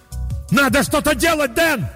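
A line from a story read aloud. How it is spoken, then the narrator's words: Full-voiced yell. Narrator (Russian): заорал я во весь голос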